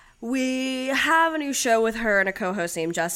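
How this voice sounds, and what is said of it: Usual voice. Nothing is said of it.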